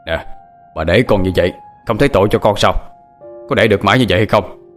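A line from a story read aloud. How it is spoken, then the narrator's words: Loud raised voice. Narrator (Vietnamese): Ông lớn tiếng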